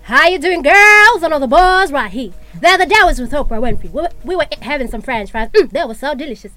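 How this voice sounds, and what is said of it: Put-on American accent. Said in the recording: “I'm going to start with the American accent.”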